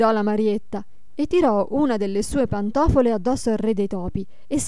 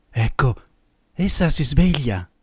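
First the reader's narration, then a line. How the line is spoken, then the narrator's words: Low voice. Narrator (Italian): Questi disse a bassa voce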